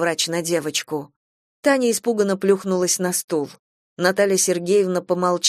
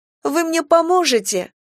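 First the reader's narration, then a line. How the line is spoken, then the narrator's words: Openly sobbing. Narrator (Russian): Таня уже открыто всхлипывала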